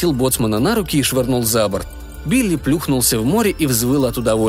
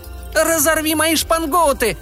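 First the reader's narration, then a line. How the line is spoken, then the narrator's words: Joyful yell. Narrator (Russian): Радостно завопил Хока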